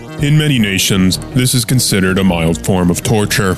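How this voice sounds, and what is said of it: Deep male announcer voice. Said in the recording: “Deep Voice Man”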